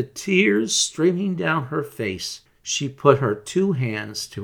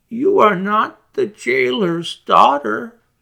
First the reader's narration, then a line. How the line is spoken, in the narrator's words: She sighed